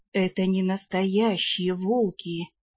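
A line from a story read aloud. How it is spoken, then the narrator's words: Forced out with effort. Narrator (Russian): наконец выдавил из себя Ролар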